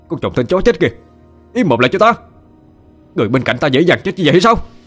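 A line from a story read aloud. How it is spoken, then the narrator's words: Tearful angry shout. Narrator (Vietnamese): Quân nước mắt giật trào, hắn quát lên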